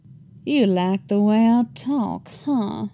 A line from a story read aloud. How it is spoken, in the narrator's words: He whispered into Thrawn's ear, making it a point to drawl the words